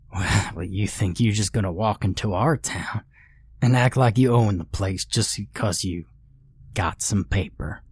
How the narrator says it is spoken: He chuckled grimly

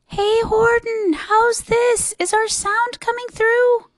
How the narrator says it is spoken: the mayor called up through the howling mad hullabaloo

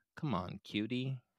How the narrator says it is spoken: Dan calmly said

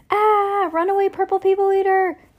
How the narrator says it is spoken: yelled Judy

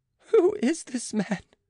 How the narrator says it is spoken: cried Jean in a fright

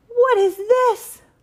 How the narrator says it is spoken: roared the Duke

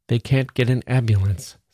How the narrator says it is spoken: said Adam

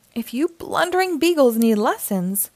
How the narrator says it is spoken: grumbled Mayor Humdinger

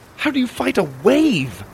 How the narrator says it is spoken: I cried

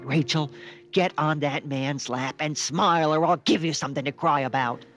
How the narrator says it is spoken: She yelled

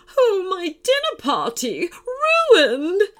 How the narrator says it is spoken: wailed a woman's voice

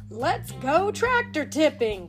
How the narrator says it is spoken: cried Mater

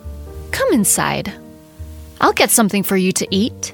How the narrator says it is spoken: said the witch in a gentler tone

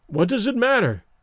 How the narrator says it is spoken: he exclaimed desperately

